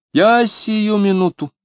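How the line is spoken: Shout. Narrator (Russian): крикнула Любаша

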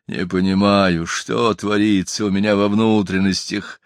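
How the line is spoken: Whimpering. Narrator (Russian): Он уже не рычал, он скулил

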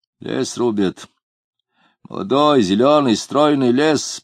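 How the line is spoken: Gloomy voice. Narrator (Russian): процитировал мрачным голосом кто-то за спиной у Самгина

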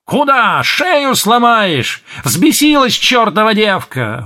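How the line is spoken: Breathless yelling aunt. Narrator (Russian): вопила тетка, едва поспевая за ней

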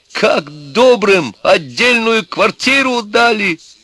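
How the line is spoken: Distant senseless shouting. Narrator (Russian): Вовсе уж бессмысленно кричал он оттуда

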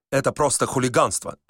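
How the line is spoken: Muttering. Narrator (Russian): забормотал ксенз Кушаковский

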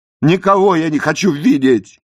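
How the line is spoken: Shout. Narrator (Russian): прокричал я

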